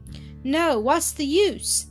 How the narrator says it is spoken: Zillah asked huskily

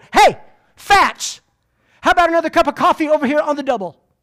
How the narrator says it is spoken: he barked across the kitchen at my mom

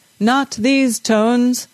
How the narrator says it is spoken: the bass singer bellowed

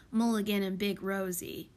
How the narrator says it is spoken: muttered Plute

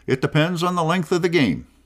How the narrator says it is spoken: replied cheerfully

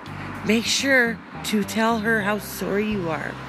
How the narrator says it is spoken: she whispered to the boy

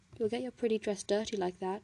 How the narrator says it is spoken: he mumbled

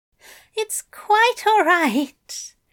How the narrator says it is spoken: Aziraphale moaned

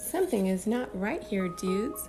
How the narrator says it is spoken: said the first

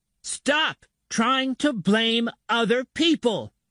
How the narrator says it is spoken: she screams at him

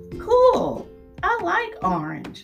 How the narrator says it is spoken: Shay exclaims

